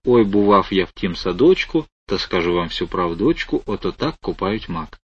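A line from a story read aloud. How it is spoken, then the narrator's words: Quiet hesitant singing. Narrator (Russian): тихонько, неуверенно запел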